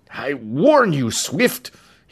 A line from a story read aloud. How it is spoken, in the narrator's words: he choked